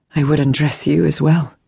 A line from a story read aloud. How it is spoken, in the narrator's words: said huskily, but she hesitated